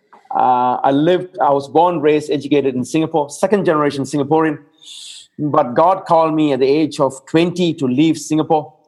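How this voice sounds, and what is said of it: Mixed Singaporean-Australian accent. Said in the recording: “Singaporean, Portuguese, and then Australian combined pedigree accent”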